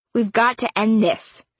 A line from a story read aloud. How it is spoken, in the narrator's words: Cole shouted over the noise